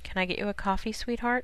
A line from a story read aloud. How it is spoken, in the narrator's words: she murmured